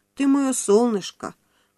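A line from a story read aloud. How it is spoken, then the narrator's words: Tender cooing. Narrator (Russian): ласково приговаривала она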